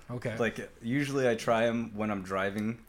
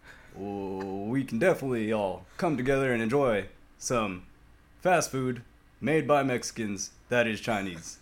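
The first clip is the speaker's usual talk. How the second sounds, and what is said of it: Imitates a politician's speaking style. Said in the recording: “you do have, like, the typical political, we're going from here, we're going to there ... That was my Barack impression.”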